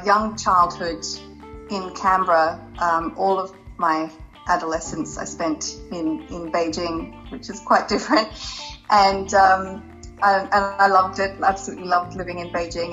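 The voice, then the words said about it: Australian accent. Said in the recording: “You do have quite an Australian accent”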